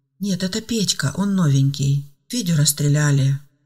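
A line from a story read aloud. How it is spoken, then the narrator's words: Calm, slightly sad. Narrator (Russian): спокойно и немного грустно сообщила Ангела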